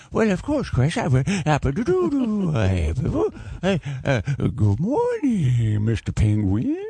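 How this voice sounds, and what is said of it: Adam Sandler impression. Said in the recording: “in your Adam Sandler voice”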